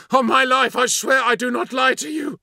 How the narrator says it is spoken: cried the captain

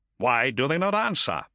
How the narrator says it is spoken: asked Antigues, his fists tightly clenched

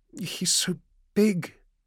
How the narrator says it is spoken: the girl murmured, more afraid now

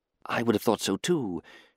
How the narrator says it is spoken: she whispered into the gloom

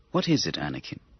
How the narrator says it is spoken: the Chancellor asked kindly

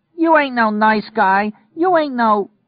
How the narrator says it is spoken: her in the upstairs hall yelling down

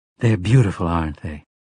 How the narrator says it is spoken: Susanna asked from behind him, almost wistfully

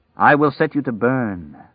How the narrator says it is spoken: the dark man said gravely

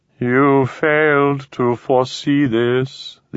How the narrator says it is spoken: the alien intoned

